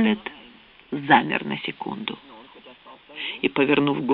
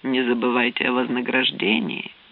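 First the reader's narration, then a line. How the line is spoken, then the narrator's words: Calm reminder. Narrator (Russian): спокойно напомнил Уоррен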